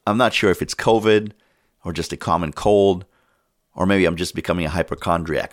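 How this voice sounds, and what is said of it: Sick, under-the-weather voice. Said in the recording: “As you might be able to tell from my voice, I've been a bit under the weather for the last couple of days, and I have a temperature of about 102 right now.”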